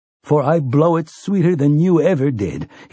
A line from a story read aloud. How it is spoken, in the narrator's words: tells Roland, laughing